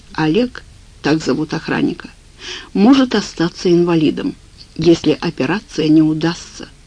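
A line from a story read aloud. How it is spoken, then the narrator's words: Plain. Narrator (Russian): сказал я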